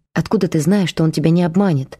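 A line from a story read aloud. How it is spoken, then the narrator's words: Grim question. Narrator (Russian): мрачно спросила она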